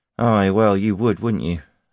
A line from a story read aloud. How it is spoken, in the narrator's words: said Cade dryly